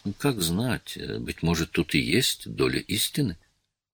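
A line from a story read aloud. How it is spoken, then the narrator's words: Timid remark. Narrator (Russian): он робко заметил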